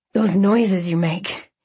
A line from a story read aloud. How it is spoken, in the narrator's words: he gasped